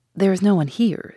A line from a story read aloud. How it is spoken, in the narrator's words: said she